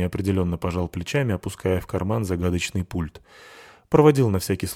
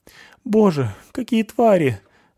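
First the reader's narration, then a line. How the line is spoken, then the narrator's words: Trembling voice. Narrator (Russian): дрожащим голосом сказала Крыскина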